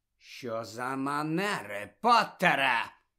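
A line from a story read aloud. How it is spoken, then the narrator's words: Menacing hiss. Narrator (Ukrainian): погрозливо прошипів Снейп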